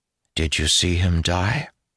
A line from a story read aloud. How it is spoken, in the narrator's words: Her tone was calm